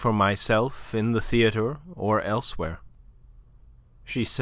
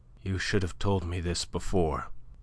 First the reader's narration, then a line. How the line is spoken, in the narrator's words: she said in a dull voice that she strove to render steady